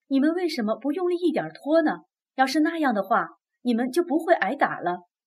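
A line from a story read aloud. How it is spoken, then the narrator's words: Pained cry. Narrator (Chinese): 他心痛的大叫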